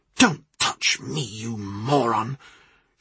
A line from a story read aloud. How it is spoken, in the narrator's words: She hissed